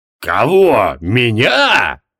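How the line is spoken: Growled. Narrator (Russian): зарычал Криол

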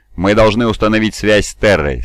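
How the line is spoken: Even, firm voice. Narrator (Russian): сказал я ровным и твердым голосом

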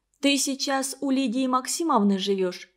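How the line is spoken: Plain. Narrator (Russian): спросила Валя

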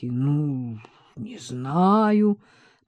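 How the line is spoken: Drawled. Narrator (Russian): протянул Алёша Тягунов

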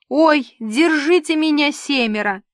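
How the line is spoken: Howling. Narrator (Russian): взвыл Карлуша

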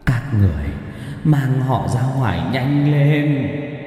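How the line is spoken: Man yelling. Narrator (Vietnamese): ông chỉ gào lên

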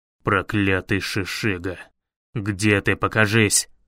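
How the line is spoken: Angry growl. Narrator (Russian): рычание Ринарина

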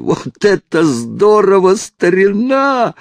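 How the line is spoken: Loud yell. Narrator (Russian): заорал он

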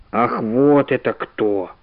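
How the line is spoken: Mutter. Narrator (Russian): пробормотал профессор

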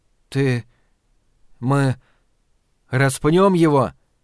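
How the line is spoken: Strained forced words. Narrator (Russian): Наконец сумел выдавить из себя мусорный бак

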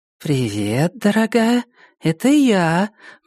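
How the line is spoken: Cooing on phone. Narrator (Russian): проворковала Мелисса в трубку сотового телефона

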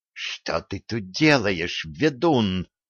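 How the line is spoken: Furious, barely audible hiss. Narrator (Russian): Яростно, но еле слышно зашипела боярыня

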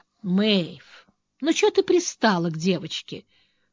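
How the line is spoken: Tired. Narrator (Russian): устало сказала Лотти

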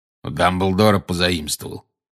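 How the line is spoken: Growled. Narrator (Russian): прорычал Грюм

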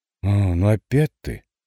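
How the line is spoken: Girl grumbling. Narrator (Russian): проворчала девица

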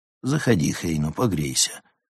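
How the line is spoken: Calm. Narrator (Russian): спокойно сказал Прост

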